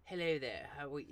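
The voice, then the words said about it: Posh university-style voice. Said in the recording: “he had some next voice ... like, the uni voice.”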